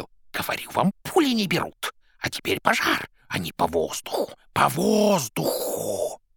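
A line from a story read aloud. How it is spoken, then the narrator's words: Hissing. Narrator (Russian): Боба шипел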